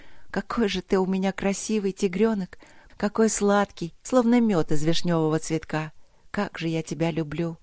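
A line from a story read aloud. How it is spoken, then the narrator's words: Tender whisper. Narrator (Russian): шептала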